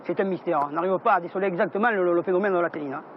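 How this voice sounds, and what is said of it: Camargue southern French accent. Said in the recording (French): “Je connais bien cet accent... je me baladais souvent en Camargue. Et c'est vrai qu'ils ont un accent”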